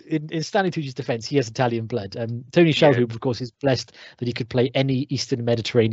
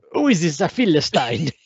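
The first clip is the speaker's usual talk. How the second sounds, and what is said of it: Exaggerated Italian accent. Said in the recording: “he was exaggerating the accent there, but he really isn't”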